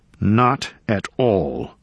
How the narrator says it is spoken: Einarsson said coldly

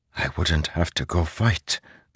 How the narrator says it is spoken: Zeth whispered

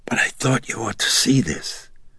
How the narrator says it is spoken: she huskily whispered

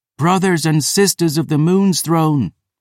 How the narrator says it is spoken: Phoebe cried

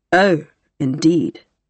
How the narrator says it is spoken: said Adela dryly

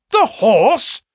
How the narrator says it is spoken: cried both the colonel and myself

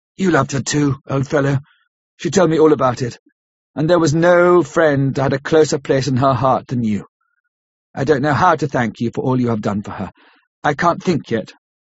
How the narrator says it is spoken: saying huskily

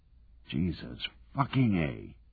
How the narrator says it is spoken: Charlie muttered

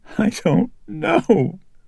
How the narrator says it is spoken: Reagan tearfully answered him

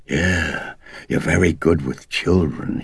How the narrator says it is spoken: he said through gritted teeth

